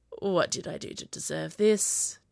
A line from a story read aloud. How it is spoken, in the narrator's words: Jack sighed